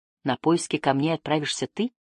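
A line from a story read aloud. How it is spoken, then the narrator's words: Plain. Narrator (Russian): спросил Эндон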